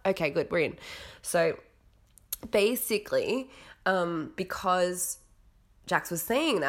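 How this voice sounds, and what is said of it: Usual voice. Nothing is said of it.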